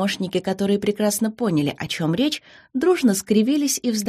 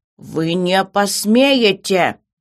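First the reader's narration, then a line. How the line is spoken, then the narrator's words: Menacing repeat. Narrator (Russian): грозно повторила она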